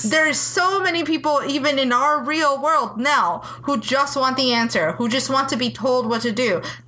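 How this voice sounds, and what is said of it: Angry, passionate delivery. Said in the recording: “hear the anger in my voice”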